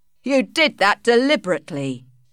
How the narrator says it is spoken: shouted Alec

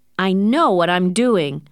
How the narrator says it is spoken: shouted Hal

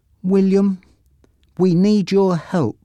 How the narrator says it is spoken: she said nervously

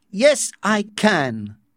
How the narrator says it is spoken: Bernard answered in a very loud voice

